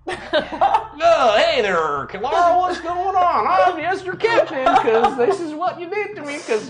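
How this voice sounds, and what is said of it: Put-on Wisconsin accent. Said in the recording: “Wisconsin.”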